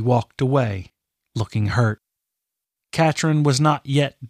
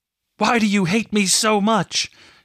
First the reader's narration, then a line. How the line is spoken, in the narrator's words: she screamed at the sky, challenging the gods themselves